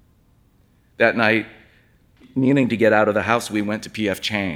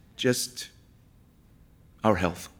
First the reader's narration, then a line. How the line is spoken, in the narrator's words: Jay said gently